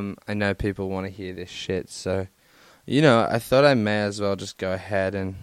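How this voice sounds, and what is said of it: Usual voice. Nothing is said of it.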